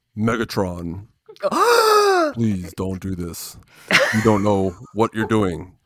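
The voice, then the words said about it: Optimus Prime impression. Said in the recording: “I'll do Optimus Prime.”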